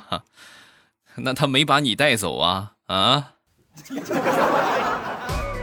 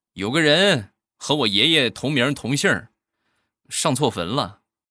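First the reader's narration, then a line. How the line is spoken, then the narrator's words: Calm, flat. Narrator (Chinese): 淡淡的说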